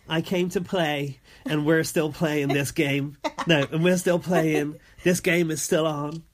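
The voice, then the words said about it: Imitates another person's voice. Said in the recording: “What accent is that? ... Karen's accent.”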